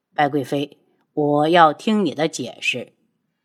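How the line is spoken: Cold voice. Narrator (Chinese): 黑衣男子冷声道

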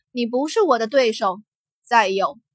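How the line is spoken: Cold, smirking. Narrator (Chinese): 罗莎夫人冷冷勾唇

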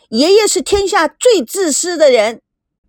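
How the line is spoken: Loud shout. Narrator (Chinese): 赵美娇大声的喊

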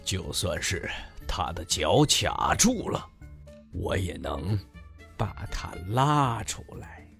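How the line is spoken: Grumbling mutter. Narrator (Chinese): 哼，鲸鱼嘟囔着说

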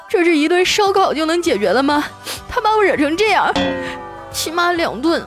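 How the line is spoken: Sobbing, broken speech. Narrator (Chinese): 小雪哭得更凶了，抽抽搭搭的跟我说

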